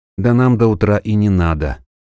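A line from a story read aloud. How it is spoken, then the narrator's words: Sad voice. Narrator (Russian): грустным голосом ответил поэт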